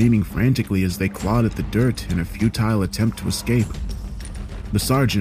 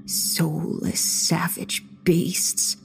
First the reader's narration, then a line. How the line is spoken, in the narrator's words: the old lady muttered